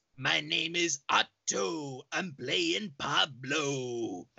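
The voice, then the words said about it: Impression of a cartoon character's voice. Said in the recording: “Very good Otto impression.”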